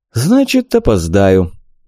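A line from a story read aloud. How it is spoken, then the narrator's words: Sad. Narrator (Russian): печально ответил ему я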